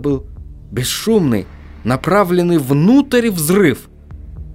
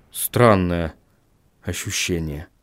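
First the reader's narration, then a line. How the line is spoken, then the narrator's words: Muttered. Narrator (Russian): пробормотал Вильям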